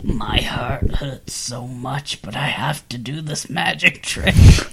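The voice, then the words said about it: Imitates another person's voice. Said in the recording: “This is my impression of Caleb.”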